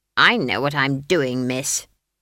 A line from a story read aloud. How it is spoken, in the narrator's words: snapped Granny